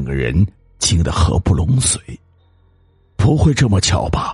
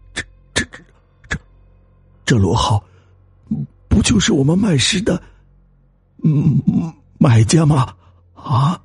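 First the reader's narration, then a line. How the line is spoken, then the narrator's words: Trembling voice. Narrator (Chinese): 颤声对大头说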